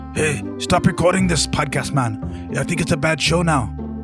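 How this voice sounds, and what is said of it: Thick broken English accent. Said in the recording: “this thick, broken English accent.”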